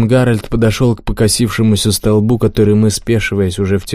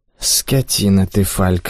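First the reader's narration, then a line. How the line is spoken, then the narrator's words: Sleepy. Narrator (Russian): сонно сказала ему Флоренс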